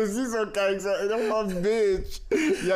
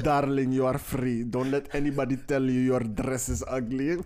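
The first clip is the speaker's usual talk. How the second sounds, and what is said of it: Put-on Italian accent. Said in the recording (Dutch): “Italiaans accent was goed, toch?”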